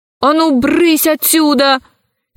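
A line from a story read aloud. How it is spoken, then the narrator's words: Shouted. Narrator (Russian): крикнула она червяку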